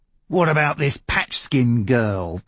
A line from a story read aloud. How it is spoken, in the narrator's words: Ted growled